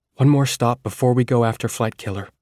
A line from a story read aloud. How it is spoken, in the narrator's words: I said